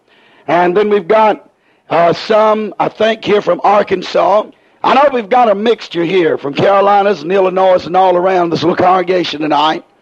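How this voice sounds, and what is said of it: Hoarse, strained speaking voice. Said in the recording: “I'm real hoarse tonight... I was already hoarse to begin with. And I'm even worse tonight”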